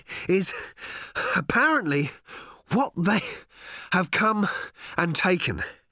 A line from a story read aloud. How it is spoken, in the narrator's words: he was panting